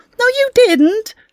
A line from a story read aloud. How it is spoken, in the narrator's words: snapped Amy